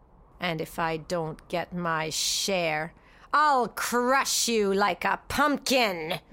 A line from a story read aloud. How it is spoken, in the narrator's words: he snarled